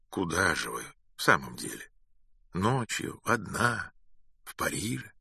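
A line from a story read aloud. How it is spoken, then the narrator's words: Calm repeated question. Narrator (Russian): Спокойно спросил еще раз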